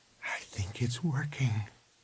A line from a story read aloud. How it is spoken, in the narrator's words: she said softly